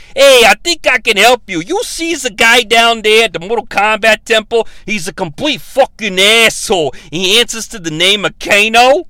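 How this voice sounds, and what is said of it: Put-on Brooklyn accent. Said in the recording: “sound like he's from Brooklyn ... sounds like Raphael from the first Ninja Turtles movie ... I'll try to stick to one accent.”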